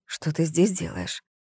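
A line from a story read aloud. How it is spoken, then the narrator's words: Whisper. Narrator (Russian): прошептала Зоя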